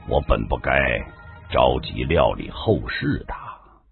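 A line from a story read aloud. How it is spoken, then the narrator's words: Flat, detached. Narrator (Chinese): 金枪旭淡淡的说道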